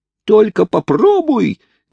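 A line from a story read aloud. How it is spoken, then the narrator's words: Strangled, choked shout. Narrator (Russian): кричал Хайрам, насколько это было для него возможно, ибо Бенджамин крепко держал его за глотку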